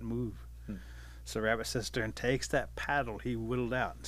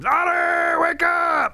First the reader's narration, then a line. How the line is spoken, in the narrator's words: he screams